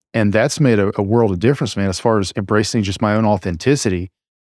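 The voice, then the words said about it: Speaks with a drawl accent. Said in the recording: “I just kind of let my drawl creep back into how I talk ... embrace my accent”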